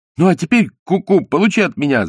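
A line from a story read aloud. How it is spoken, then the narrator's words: Older boy shouting. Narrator (Russian): закричал старший мальчишка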